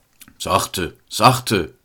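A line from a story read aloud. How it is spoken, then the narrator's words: Father calling out. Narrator (German): rief der Vater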